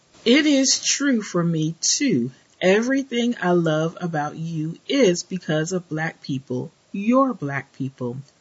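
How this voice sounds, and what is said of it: Southern drawl. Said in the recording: “my southern drawl”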